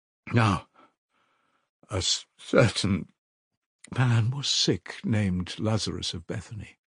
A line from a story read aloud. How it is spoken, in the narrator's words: she forced herself at last to read, but at the third word her voice broke like an overstrained string